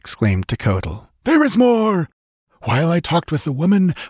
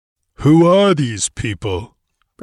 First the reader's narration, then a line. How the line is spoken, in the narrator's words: asked Olmec, and his voice was like the low, deep rumble of a distant bull